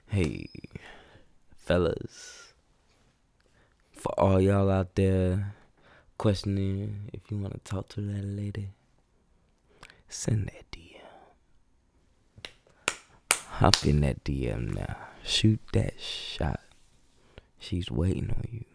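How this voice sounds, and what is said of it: Imitates another person's voice. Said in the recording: “put on my Luther Vandross voice.”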